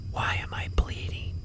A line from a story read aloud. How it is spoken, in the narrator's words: He again whispered